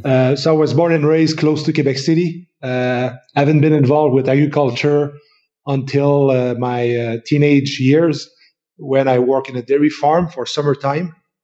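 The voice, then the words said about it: French Canadian accent. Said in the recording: “I'm a French Canadian, so from Quebec. So you recognize my French accent.”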